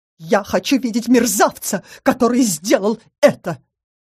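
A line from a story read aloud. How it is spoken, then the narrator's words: Belligerent exclamation. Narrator (Russian): воинственно воскликнула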